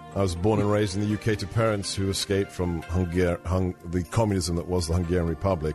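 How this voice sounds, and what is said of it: Foreign British-sounding accent. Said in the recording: “I may have a funny accent,”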